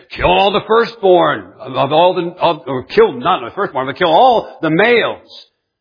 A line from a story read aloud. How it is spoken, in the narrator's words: roared again and said